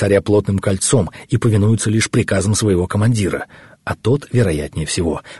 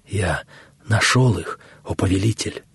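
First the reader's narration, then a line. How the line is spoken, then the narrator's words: Whisper. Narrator (Russian): прошептал Гаумата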